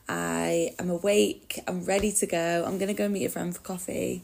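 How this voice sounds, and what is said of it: Raspy voice. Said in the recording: “I'm sounding a little bit raspy this morning”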